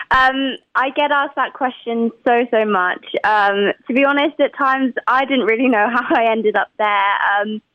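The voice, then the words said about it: English accent. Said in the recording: “from London, England ... Your accent”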